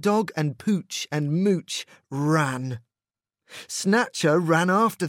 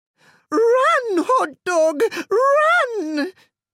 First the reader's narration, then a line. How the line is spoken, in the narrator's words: cried Mrs